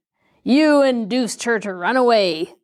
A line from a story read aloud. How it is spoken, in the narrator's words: the man snarled